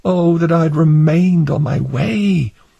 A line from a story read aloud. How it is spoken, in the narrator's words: Hopeful groaned within himself, saying